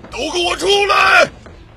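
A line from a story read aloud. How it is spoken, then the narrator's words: Desperate shout. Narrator (Chinese): 包德困兽犹斗，并大喊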